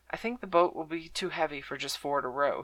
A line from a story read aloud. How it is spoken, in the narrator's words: he said quietly